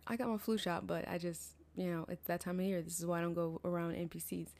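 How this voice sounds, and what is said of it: Congested, stuffy-nosed voice. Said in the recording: “If I sound congested, it's that time of year.”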